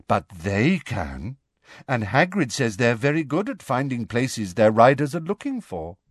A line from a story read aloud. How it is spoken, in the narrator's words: said Luna in a dignified voice